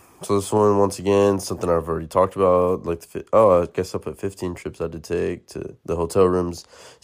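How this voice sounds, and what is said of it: Tired-sounding voice. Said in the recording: “sorry if I sound tired, I'm tired as fuck”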